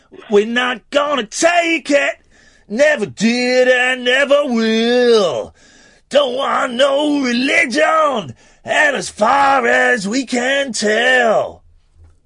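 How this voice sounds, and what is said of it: Sung impression of a singer, American-sounding. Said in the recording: “doing a really good impression ... it sounds American”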